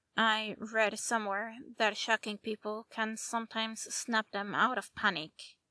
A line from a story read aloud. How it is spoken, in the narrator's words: the fairy said, smiling weakly